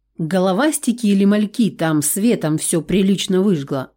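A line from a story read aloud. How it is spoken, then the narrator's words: Plain. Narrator (Russian): ответила Нирана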